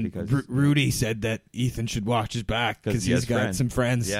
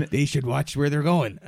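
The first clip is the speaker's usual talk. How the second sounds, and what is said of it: Imitates another person's voice. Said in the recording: “my Rupert Rudy impression”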